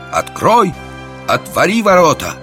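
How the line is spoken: Shout. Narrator (Russian): закричал

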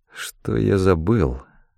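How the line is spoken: Muttered to himself. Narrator (Russian): пробормотал я, обращаясь главным образом к самому себе

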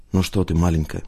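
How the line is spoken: Murmuring. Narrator (Russian): пробормотал он

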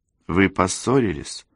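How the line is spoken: Timid question. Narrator (Russian): робко спросила Розалинда

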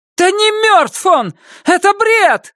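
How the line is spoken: Shout. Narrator (Russian): закричала Эмилия

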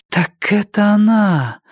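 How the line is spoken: Breathed out by door. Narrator (Russian): выдохнула дверь

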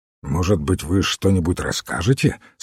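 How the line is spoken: Plain. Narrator (Russian): спросил Фламбо

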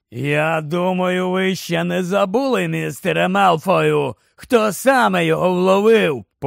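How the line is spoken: Threatening growl. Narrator (Ukrainian): почулося погрозливе гарчання Грейбека

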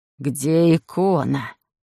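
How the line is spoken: Hoarse rasp. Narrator (Russian): прохрипел томат

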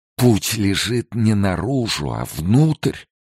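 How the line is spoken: Trembling mutter. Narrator (Russian): дрожащим голосом пробормотал жрец

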